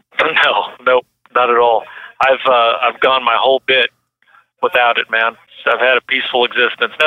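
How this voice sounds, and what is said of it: Hoarse voice. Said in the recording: “It's probably why I'm so hoarse right now”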